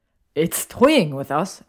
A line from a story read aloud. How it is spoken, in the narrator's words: exclaimed Malfoy